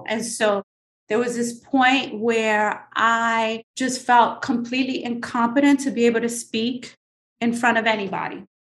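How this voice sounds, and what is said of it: Slight New York accent. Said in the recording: “The New York City kid from the Lower East Side, I have this little New York accent”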